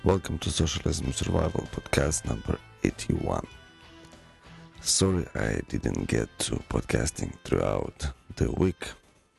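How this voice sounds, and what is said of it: Sick, altered voice. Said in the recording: “hear the difference in my voice... tonsillitis and cough”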